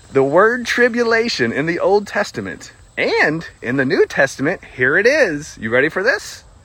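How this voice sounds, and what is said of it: American country accent. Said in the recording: “I know I have a country accent as well. You probably listen to me. You're like, well, you sound like a country fried steak as well.”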